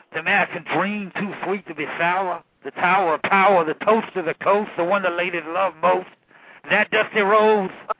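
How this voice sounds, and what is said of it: Dusty Rhodes impression. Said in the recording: “a pretty good Dusty Rhodes impression”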